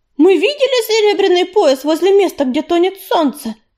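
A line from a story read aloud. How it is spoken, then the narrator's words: Ringing shout. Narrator (Russian): звонко крикнула она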